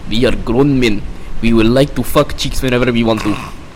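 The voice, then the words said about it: Put-on Russian accent. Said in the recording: “saying that in a Russian accent ... A Russian accent ... a Putin version of”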